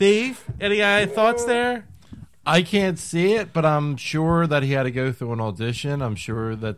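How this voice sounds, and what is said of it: Usual voice. Nothing is said of it.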